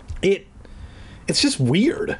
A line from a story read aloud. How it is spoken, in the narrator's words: I stammered